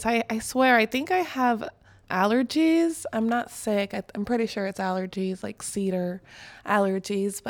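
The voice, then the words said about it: Voice sounds off, slightly affected. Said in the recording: “excuse my voice”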